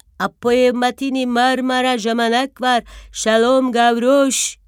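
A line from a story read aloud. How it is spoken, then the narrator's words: Shouting. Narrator (Turkish): diye bağıran sesini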